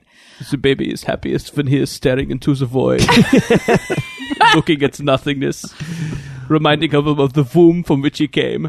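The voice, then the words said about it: Deliberately bad Werner Herzog impression. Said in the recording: “That's a great bad impression to do.”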